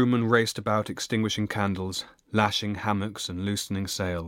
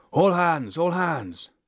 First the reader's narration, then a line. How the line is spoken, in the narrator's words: Bosuns piped their whistles and cried